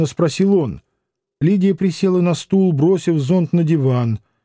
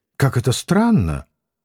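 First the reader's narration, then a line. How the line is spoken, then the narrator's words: Quiet. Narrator (Russian): тихо заговорила она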